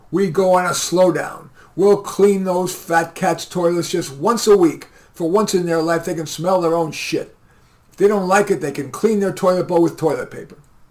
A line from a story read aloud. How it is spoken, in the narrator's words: The fiery one roared